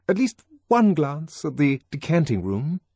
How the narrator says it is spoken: he pleaded

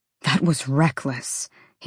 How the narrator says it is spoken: he said through his teeth

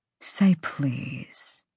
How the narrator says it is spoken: he breathed

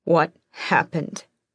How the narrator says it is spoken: She rasped

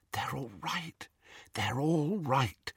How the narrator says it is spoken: she whispered

